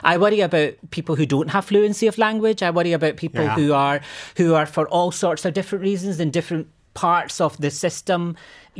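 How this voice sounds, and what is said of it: Scottish accent. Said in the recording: “people kind of hear this Scottish accent”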